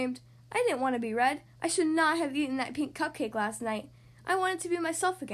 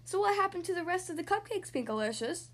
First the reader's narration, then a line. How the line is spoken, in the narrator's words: Daddy asked